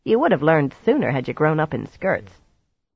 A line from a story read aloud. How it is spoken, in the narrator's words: they cackled at her